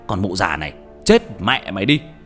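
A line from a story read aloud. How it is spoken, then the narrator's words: Shout. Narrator (Vietnamese): quát lên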